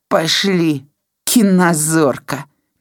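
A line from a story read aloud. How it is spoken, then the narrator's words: Displeased grumble. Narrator (Belarusian): незадаволена буркнуў Толік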